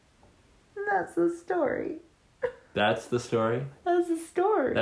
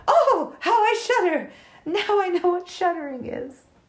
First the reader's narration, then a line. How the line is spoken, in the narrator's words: cried